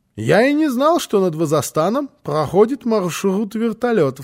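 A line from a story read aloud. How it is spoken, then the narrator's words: Plain. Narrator (Russian): сказал господин Пек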